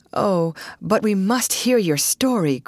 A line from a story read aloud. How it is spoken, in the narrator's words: cried Ruth to the lost girls